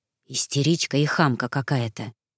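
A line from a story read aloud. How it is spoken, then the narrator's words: Whispered. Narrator (Russian): прошептав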